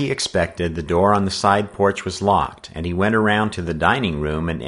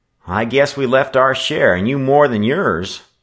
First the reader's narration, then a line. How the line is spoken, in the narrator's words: laughed Charlie